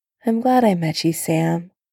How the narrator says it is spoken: he murmured

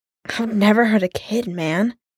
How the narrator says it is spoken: Clint choked out

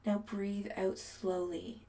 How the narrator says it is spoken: Adam murmurs

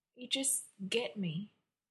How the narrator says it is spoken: he murmurs, sleepy

